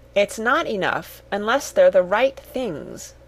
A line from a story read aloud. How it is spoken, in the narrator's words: said Cyril firmly